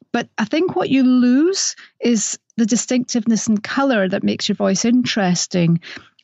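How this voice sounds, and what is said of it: Scottish accent. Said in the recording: “my Scottish accent is tricky for some”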